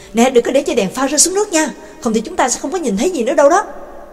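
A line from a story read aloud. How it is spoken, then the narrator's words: Calling out. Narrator (Vietnamese): Nhạc Dương kêu lên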